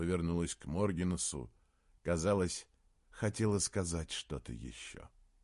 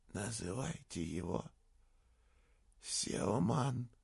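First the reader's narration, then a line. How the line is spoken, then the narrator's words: Rasping. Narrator (Russian): прохрипела Сюзанна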